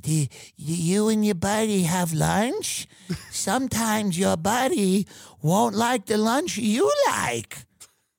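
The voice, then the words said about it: Imitates another person's voice. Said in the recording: “doing an Adam Sandler voice”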